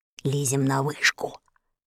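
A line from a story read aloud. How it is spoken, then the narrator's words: Whispering. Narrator (Russian): прошептал он Энни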